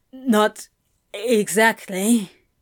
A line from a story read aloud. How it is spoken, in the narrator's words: he croaked